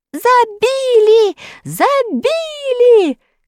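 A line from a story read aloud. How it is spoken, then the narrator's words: Shouting. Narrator (Russian): кричал он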